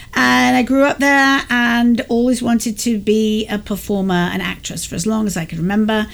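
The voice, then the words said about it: English accent. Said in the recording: “you can hear from my accent that I'm English”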